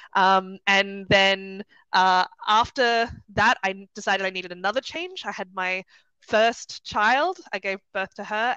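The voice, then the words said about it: Australian accent. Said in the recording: “I'm from Sydney originally, you might be able to tell from the accent.”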